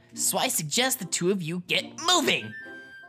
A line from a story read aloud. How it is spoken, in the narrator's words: Mido snapped